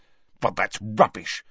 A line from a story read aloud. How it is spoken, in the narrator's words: snapped Harry